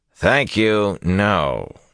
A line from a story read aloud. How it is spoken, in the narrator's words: he said dryly